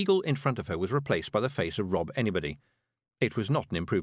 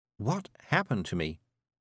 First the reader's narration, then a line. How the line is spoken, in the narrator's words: whispered